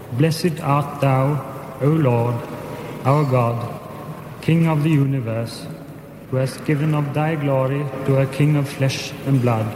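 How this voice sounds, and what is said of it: Proper British accent. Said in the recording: “with the proper British accent”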